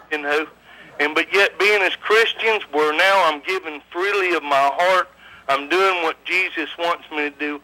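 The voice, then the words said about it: Regional accent. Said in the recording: “With that accent, it just somehow makes us sit down and want biscuits”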